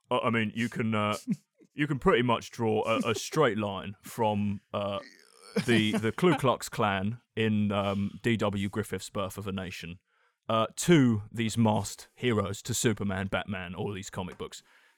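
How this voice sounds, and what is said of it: Imitates another person's voice. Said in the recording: “I'm gonna do my Moore impression, I warn you. He goes,”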